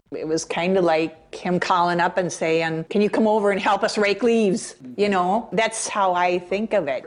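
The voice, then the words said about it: Minnesota Fargo accent. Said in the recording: “It's Minnesota, so she's got the Fargo accent”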